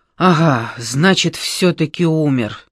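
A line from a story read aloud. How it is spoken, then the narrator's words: Relieved exhale. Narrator (Russian): облегченно выдохнул Ямбых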